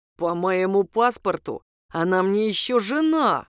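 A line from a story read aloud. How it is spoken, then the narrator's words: Through gritted teeth. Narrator (Russian): сказал экс-супруг сквозь зубы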